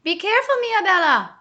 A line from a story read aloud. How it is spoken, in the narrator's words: cried Bismarck